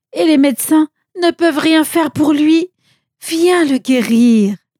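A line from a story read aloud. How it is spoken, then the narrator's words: Pleading. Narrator (French): supplia-t-il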